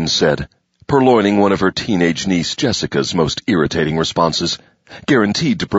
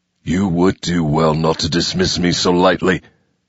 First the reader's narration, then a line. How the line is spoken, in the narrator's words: he growled